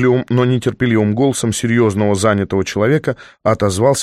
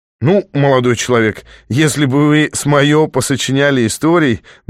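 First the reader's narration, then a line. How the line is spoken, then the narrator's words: Pleased laughing writer. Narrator (Russian): довольно рассмеялся писатель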